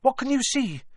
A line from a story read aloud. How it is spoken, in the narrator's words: Hermione said anxiously